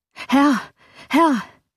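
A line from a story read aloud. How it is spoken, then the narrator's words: Frightened servant calling out. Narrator (German): rief ein Diener mit einem noch bleicheren Gesicht und mit noch erschrockenerer Miene als zuvor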